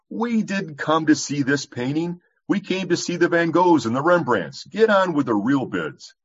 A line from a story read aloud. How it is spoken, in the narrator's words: Another voice shouted angrily